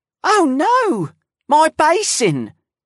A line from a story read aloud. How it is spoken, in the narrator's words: Auntie Wide cried out